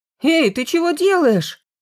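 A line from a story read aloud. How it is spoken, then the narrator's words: Horrified exclamation. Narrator (Russian): с ужасом воскликнул Стрельцов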